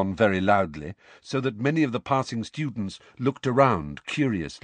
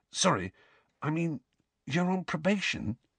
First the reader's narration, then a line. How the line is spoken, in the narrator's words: whispered